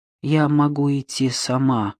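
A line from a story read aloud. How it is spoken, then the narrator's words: Dejected voice. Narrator (Russian): ответила она упавшим голосом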